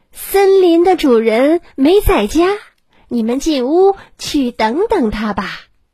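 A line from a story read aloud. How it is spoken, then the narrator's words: Loud fox. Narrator (Chinese): 狐狸大声说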